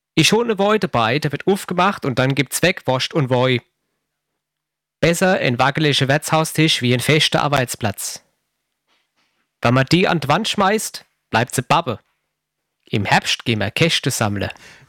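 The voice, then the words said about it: Put-on Palatinate German dialect. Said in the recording (German): “Dialekte super und sprechen auch gerne in diversen Dialekten ... Zehntens, Pfälzisch.”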